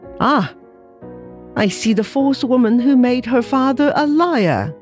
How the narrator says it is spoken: he cried

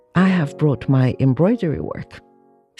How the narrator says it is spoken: said she

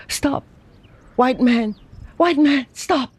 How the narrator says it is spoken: Lei Chu, panting and terrified

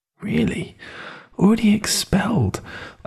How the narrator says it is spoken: muttered over to myself

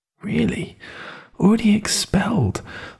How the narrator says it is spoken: I muttered her words over to myself

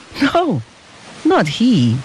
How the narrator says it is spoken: answered the father with a happy laugh

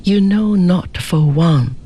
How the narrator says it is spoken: she replied, sadly yet proudly

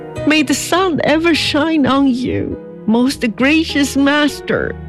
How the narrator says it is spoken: cried Xie

